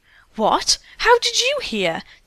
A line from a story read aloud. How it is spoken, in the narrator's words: two of the girls exclaimed in surprise